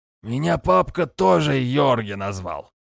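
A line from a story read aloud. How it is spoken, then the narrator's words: Drunken hoarse chuckle, man. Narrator (Russian): С пьяным смешком просипел невысокий мужичок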